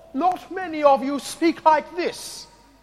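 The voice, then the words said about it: Put-on posh noble accent. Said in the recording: “my attempt at a noble accent”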